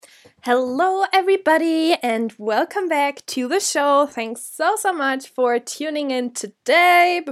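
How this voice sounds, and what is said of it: Nasal, blocked-nose voice. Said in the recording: “my voice is really nasal. Nasal, do you say that? ... it sounds a bit weird ... I'm just a human with a blocked nose”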